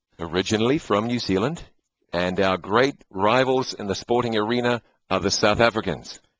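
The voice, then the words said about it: New Zealand accent. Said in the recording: “you've probably noticed an accent. You've got two accents here behind the microphones tonight. is from New Zealand.”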